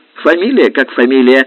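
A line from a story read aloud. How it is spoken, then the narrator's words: Sharp interruption. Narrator (Russian): резко перебил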